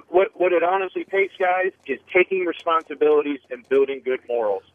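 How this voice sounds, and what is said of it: Baltimore accent. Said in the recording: “You got raised in that Bullmore accent ... That's my favorite accent. It is the best.”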